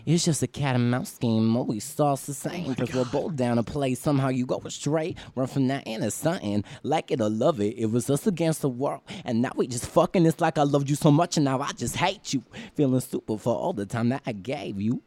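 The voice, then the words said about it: Rapping in an imitated rapper's voice. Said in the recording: “I do an Iggy Azalea impression. ... that's my Iggy Azalea impression.”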